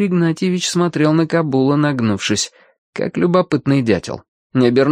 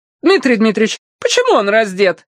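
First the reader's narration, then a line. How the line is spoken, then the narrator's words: Shrieking. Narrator (Russian): взвизгнула Анна Леонтьевна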